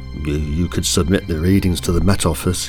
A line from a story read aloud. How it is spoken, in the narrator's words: he grunted